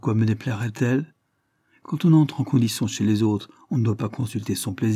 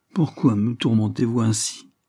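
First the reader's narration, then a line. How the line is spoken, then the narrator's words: Tearful sigh. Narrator (French): soupira-t-elle, prête à pleurer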